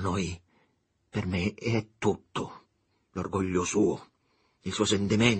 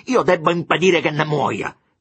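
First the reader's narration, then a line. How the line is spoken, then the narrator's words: Shouted. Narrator (Italian): gridò Giulio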